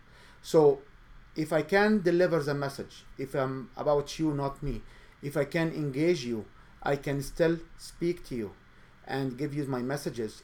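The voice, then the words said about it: Speaker's own non-native accent. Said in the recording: “I do have an accent”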